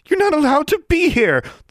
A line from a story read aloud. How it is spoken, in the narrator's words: the witch cried out